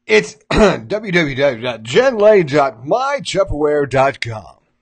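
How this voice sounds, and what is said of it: Announcer-style radio voice. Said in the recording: “Let me give you my radio voice.”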